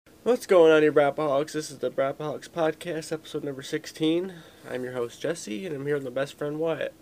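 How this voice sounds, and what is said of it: Raspy voice. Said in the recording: “I'm just recouping from being sick for the last week, so my voice is pretty raspy”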